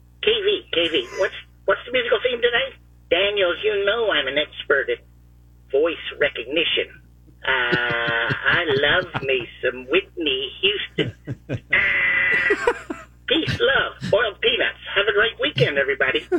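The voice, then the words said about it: Impression of Bianchi (Binky). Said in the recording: “my Bianchi impression ... the winning imitation of Binky”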